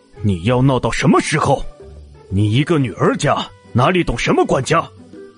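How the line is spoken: Cold, displeased question. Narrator (Chinese): 皱眉，冷声问道

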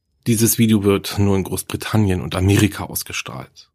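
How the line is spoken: Plain. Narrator (German): antwortete der Kameramann

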